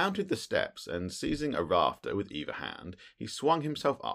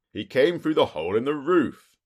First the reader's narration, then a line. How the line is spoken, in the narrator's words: I cried